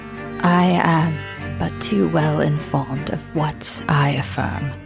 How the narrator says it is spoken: he said quietly

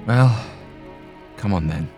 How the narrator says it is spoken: he said wearily

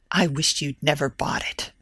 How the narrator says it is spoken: said Evelina harshly

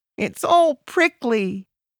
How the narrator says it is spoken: I cried

